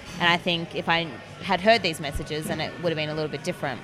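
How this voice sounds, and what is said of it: Australian accent. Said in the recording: “as people will tell from your accent, you are from Australia.”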